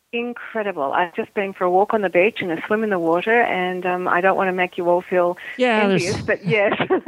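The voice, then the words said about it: Australian accent. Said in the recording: “we love hearing your accent ... I'm from a little town in Australia called Geelong, which is very near Melbourne”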